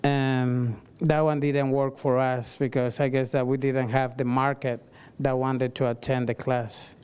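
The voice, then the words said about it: Noticeable accent. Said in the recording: “Sorry for my accent.”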